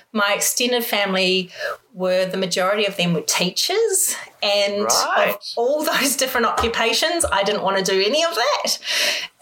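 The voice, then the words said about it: New Zealand accent. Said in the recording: “I'm guessing this is in New Zealand, just by the accent.”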